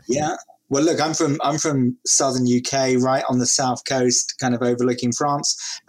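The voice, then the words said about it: British accent. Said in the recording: “you're probably in the UK somewhere, given your accent”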